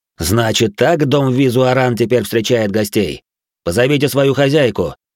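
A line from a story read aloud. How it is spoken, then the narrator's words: Loud and mocking. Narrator (Russian): он громко и насмешливо произнес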